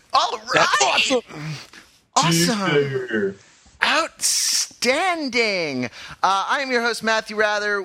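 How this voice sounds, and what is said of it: Cracked-out surfer voice. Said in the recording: “the cracked-out surfer voice”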